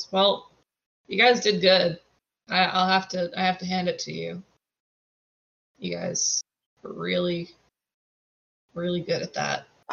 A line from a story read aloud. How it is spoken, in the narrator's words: Hawk sort of sighs and goes